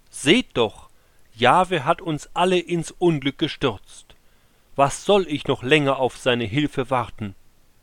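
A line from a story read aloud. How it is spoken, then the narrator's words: Called out. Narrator (German): der König rief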